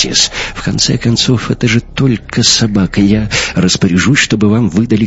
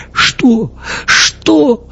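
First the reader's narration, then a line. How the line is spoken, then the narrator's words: Sobbing speech. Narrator (Russian): рыдая, проговорил Йонс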